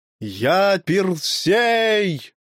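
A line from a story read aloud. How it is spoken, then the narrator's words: Shout. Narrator (Russian): крикнул Гий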